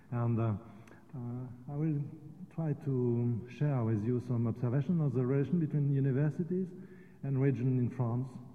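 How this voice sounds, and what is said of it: French-accented English. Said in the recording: “I apologize for my poor English accent, but French accent.”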